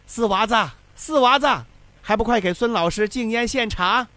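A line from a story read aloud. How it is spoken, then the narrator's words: Loud shout. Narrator (Chinese): 又回头向外间的四娃子高喊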